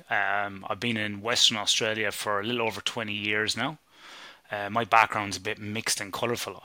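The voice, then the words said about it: Irish accent. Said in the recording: “as you can probably tell by my accent ... I'm Irish originally.”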